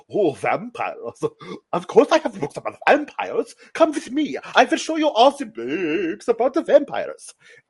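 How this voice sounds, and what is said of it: Vague Eastern European put-on accent. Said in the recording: “Eastern European, but I can't place the accent. ... Is he Swedish? Is he Indian?”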